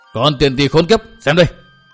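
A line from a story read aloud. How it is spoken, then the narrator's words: Furious shrill shout. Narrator (Vietnamese): một giọng đầy phẫn nộ quát lên lanh lảnh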